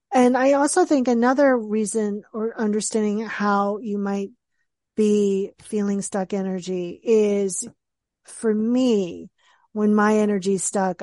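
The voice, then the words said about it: Raspy, hoarse voice. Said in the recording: “my throat might be hurting me. I've been talking all day, so this is why it's raspy right now”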